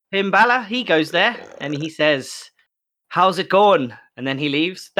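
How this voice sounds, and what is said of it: Weak put-on Irish accent. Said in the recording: “That was my Irish accent. It wasn't good, but I had a go.”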